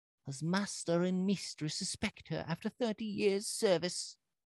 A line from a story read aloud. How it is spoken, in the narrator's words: Cook and old John begged